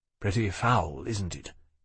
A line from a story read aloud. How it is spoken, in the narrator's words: he said, in a more subdued tone